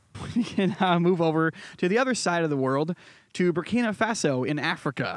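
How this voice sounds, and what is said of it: Connecticut and New York accent. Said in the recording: “you have a very funny accent ... A very Connecticut morphed into a semi-New York accent ... like a just south of like Boston accent mixed with a New York accent”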